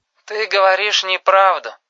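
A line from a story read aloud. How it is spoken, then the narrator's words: Tired speech. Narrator (Russian): устало сказала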